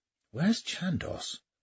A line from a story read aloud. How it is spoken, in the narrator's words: whispered Kildare to Blackstone